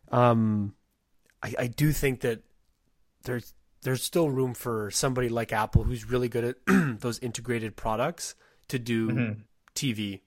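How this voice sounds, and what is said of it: Strained, failing voice. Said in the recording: “my voice is going to give out here”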